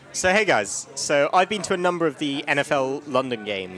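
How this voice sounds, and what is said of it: English accent. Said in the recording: “he has an English accent, and that's badass”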